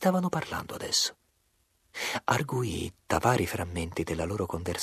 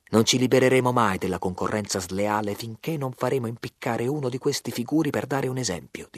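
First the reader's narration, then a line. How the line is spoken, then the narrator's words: Plain. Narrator (Italian): disse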